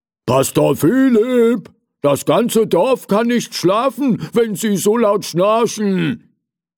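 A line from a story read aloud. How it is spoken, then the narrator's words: Calling at full voice. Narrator (German): rief Bäcker Butenschön aus voller Kehle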